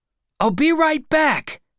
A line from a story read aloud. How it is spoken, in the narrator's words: I shouted